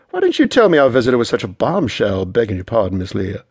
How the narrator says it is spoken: Andy laughed

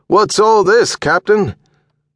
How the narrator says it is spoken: like the man had yelled from the bottom of a well

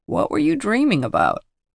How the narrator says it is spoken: asks Father sleepily

